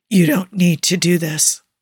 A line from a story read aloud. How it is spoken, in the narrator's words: Booker's voice sounds raw in his head and even worse when it hits his ears as he croaks